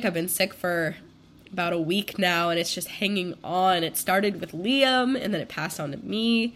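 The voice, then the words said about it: Congested voice. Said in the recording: “I sound congested ... I'm currently getting over being sick”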